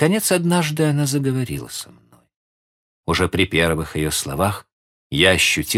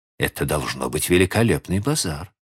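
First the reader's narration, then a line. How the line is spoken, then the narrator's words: Plain. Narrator (Russian): сказала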